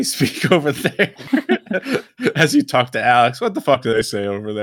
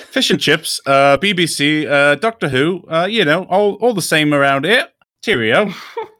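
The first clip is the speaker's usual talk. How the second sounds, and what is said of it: Dick Van Dyke-style Cockney accent. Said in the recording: “like a Dick Van Dyke, like Cockney accent”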